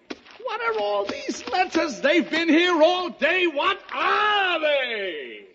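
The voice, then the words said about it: Shouting. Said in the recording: “Stop shouting.”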